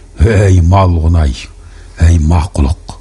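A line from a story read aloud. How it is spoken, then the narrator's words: Mocking grin. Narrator (Kazakh): Қоңқай оның пәруейсіздігін мазақтай ыржиып алды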